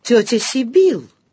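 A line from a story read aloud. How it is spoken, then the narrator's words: Astonished exclamation. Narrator (Russian): изумленно воскликнула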